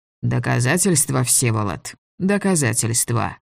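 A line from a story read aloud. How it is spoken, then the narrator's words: Gloomy. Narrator (Russian): сказал Головин мрачно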